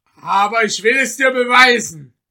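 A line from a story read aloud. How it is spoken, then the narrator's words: Angry shout. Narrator (German): rief jener ärgerlich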